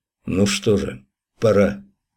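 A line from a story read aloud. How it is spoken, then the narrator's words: Quiet, to himself. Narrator (Russian): тихо, будто сам себе сказал Святослав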